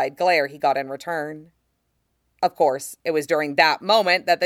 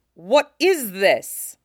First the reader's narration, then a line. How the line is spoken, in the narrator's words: the general exclaimed angrily